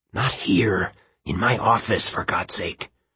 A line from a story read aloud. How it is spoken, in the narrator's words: he said under his breath